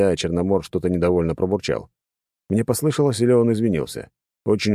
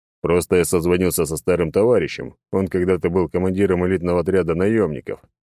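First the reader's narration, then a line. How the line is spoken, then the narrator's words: Old man's deep voice. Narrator (Russian): пробасил старик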